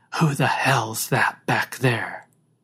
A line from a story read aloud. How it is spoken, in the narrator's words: Somebody whispered